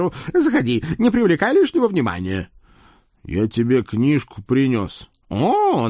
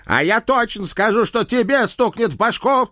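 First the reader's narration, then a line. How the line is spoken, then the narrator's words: Menacing bark. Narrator (Russian): Грозно рявкнул Центурион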